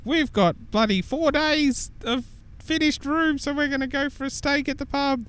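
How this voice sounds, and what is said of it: Imitates another person's voice. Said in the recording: “That's actually a perfect Tam impersonation ... Yeah, nailed it. Oh, I was doing Jimmy though.”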